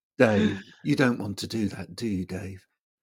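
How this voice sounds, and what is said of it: Impression of HAL computer voice. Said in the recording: “I feel like I'm talking to Hal from, you know, in 2001. ... That's my how impersonation.”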